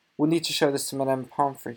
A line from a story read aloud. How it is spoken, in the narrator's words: he said